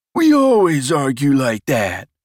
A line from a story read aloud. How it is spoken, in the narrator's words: replied Jezdan loudly